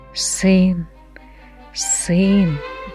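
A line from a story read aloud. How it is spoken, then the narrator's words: Said quietly. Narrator (Russian): тихо сказала Евника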